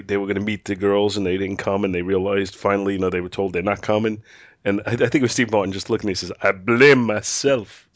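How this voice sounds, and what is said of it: Congested voice from a cold. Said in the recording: “I have a cold,”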